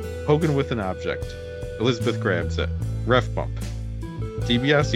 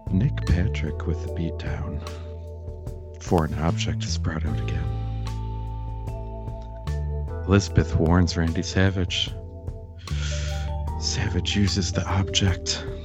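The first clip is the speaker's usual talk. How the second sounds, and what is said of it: Sexy voice like Goldust. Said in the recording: “in a sexy voice ... You sound like Gold Dust. You sound like Gold Dust.”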